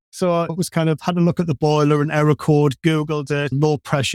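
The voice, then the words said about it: Northeast regional accent. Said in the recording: “probably tell from the accent I'm from the northeast”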